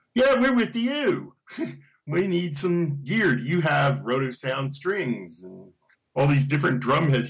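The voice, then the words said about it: Thick British accent impression. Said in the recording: “your impression of a thick British accent”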